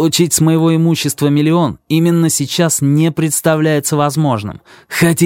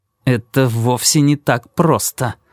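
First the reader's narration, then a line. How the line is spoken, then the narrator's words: Through clenched teeth. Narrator (Russian): ответил Кармоди сквозь зубы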